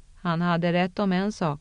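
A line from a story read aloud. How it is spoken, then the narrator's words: Calm and peaceful. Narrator (Swedish): sa Moraine, lugnt och fridsamt, som om hon hade stått på en sommaräng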